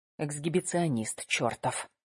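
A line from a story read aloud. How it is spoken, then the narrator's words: Whisper. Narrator (Russian): шепнула Ира Кате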